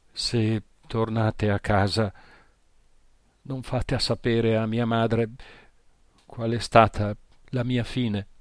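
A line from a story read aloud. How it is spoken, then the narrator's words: Sobbing. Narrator (Italian): singhiozzava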